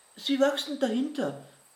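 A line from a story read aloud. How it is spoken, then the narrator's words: Called out. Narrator (German): rief Theo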